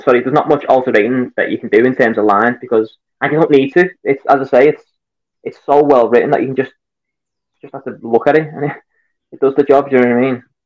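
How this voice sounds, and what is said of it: Scouse Liverpool accent. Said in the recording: “the ladies were also losing it over the accent ... I'm a Scouser. I'm from Liverpool.”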